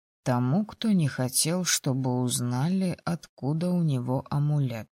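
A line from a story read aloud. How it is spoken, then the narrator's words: Quiet. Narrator (Russian): негромко произнес Логинов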